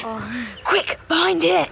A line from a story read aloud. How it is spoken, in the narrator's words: Harry hissed